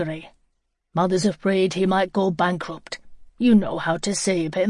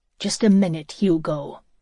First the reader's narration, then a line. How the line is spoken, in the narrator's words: said coldly, fighting to get free